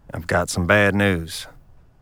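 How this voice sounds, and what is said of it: Low, quiet voice. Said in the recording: “speaks in a low voice”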